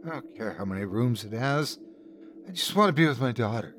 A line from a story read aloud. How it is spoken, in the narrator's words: My wife with tear-glazed eyes muttered